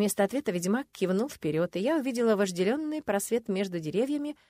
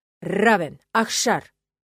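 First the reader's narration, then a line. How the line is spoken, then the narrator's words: Dean barking. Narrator (Russian): рявкнул декан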